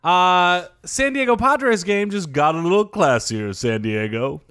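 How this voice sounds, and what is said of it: Imitates another person's voice. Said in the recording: “Pretty good impression.”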